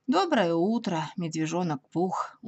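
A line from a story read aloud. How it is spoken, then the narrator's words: Gloomy. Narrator (Russian): уныло ответил Иа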